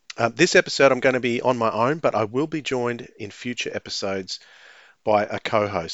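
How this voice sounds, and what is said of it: Australian accent. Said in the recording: “as you can hear from my accent, I am located in Australia”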